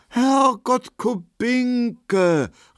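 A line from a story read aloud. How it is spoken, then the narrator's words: Feigned astonished exclamation. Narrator (German): rief Markowski erstaunt, und er spielte seine Rolle sehr gut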